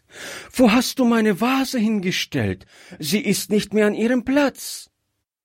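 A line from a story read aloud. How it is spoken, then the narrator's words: Frightened child's cry. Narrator (German): rief das Kind erschrocken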